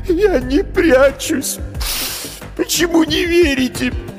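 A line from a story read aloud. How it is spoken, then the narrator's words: Captive sobbing. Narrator (Russian): Пленник всхлипнул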